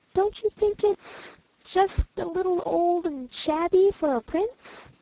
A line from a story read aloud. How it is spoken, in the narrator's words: The old woman laughed, long and loud, though very sweetly